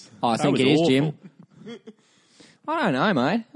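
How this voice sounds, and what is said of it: Poor put-on Australian accent. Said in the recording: “Is this the bit of the show where we all do our terrible Australian accents? ... an Australian accent that's not going very well”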